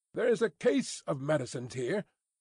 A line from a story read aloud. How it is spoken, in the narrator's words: the younger, who said haughtily